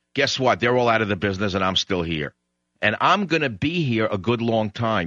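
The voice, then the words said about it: Strong New York accent. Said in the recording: “my accent was too New York”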